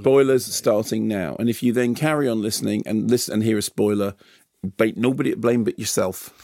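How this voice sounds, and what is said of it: Unidentified put-on accent. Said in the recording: “And what accent was that?”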